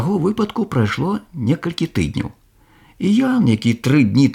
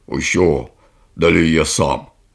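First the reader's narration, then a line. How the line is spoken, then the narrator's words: Curt mutter. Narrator (Belarusian): той толькі буркнуў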